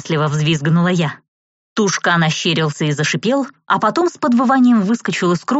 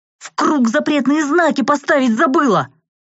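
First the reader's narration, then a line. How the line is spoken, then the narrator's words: Yelling. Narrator (Russian): заорал Ари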